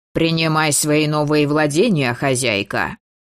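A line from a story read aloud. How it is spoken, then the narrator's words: Weary snort, whistling breath. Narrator (Russian): фыркнул он с утомленным присвистом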